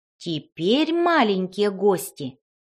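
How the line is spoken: Plain. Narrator (Russian): сказала фея С

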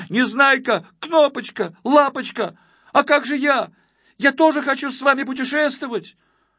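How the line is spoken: Shouting. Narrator (Russian): закричал

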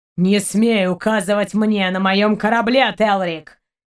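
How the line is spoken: Growled. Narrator (Russian): прорычал Шейн

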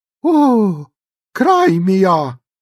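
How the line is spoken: Exclaimed. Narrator (Russian): воскликнула мисс Джеффри

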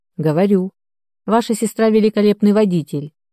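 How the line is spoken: Snorting grunt. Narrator (Russian): Игорь хмыкнул

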